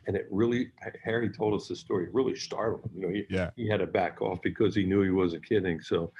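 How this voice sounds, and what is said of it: Usual voice. Nothing is said of it.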